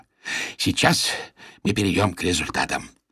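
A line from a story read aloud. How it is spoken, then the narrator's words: Hoarse summing up. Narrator (Russian): подытожил Ариэль севшим голосом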